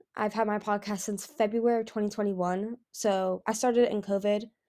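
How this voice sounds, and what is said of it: American accent. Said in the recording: “I live in the United States, as you can probably tell by my accent.”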